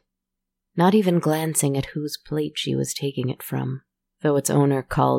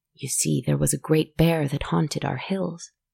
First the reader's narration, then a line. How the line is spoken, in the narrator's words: the man said quietly